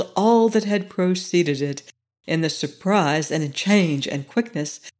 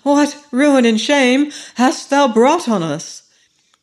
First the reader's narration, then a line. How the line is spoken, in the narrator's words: exclaimed Ali Baba